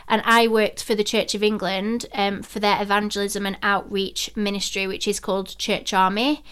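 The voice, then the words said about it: Slight Yorkshire accent. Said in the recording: “you've got a little bit of a Yorkshire twang”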